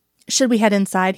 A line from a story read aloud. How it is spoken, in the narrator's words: he asks